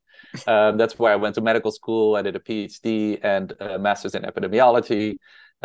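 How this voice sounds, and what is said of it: Dutch accent. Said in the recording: “I'm originally from the Netherlands. That's why I have this Dutch accent.”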